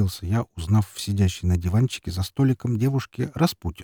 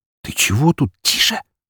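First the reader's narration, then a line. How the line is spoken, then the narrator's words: Hissing. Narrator (Russian): зашипела она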